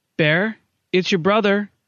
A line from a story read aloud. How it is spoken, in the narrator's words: she called out